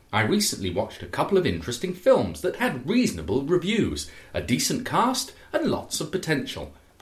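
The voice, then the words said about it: Put-on received pronunciation accent. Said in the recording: “He wants it to be read in RP ... RP, received pronunciation ... your very best received pronunciation”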